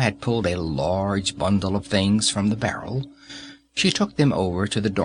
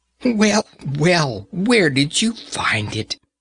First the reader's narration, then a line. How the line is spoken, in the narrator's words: Grandma cried